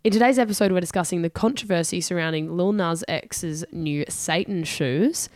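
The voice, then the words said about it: Hoarse, strained voice. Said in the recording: “I will be losing my voice ... I am losing my voice a bit, so apologies.”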